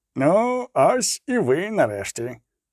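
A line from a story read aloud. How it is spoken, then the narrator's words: Glad, noticeably changed voice. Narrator (Ukrainian): зрадів їхньому приходу Золтан вже явно зміненим голосом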